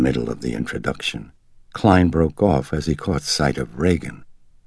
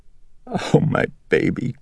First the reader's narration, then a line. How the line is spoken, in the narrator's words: Chris whimpered